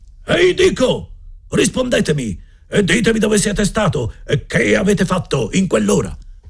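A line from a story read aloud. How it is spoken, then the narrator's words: Louder yell. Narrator (Italian): urlò ancora più forte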